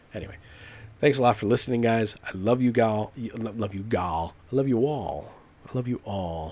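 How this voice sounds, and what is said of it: Usual voice. Nothing is said of it.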